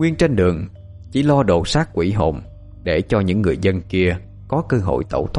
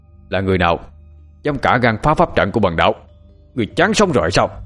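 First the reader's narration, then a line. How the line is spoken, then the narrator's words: Loud angry shout. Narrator (Vietnamese): tên đạo sĩ kia quát lớn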